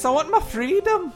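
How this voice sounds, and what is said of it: Put-on Scottish accent. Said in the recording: “That was a good Scottish accent”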